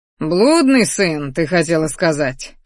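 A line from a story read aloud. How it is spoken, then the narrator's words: Father's chuckle. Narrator (Russian): хохотнул отец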